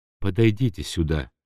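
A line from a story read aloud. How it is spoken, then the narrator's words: Quiet request. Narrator (Russian): тихо попросил ее Турбин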